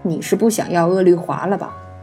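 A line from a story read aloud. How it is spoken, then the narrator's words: Cold. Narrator (Chinese): 柳灵玉 冷声道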